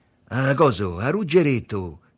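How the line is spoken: Sweet, deep voice. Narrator (Italian): fece Tommaso con voce dolce e profonda

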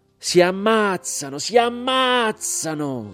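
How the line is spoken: Shouting while crying. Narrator (Italian): gridava Marino Canale e piangeva

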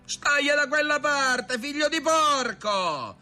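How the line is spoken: Shouted. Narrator (Italian): gli gridò Barabba

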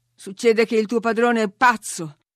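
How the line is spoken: Thundering. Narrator (Italian): ha tuonato Heathcliff

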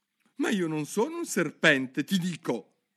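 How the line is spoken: Exclaimed. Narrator (Italian): esclamò Alice

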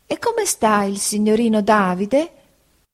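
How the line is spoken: Kindly. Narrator (Italian): Egli mi dice con tono di bontà

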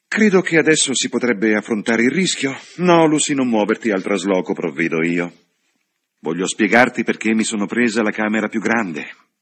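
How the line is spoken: Sighing woman. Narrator (Italian): la signorina Bartlett con un sospiro e disse

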